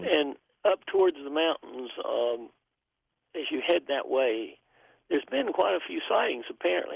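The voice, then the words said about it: Southern hillbilly twang. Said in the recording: “my hillbilly twang,”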